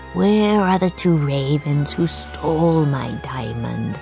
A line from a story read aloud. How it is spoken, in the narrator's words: asked in a raspy voice